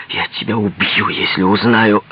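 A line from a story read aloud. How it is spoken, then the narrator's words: Hiss. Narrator (Russian): прошипел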